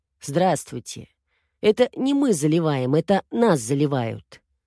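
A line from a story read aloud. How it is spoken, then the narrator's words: Calm soothing neighbor. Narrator (Russian): Голос соседа звучал очень спокойно, почти успокаивающе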